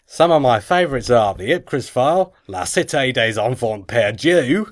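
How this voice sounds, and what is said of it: Put-on Australian accent. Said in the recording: “this is going to be really impossible in an Australian accent ... That's not bad ... That's really good.”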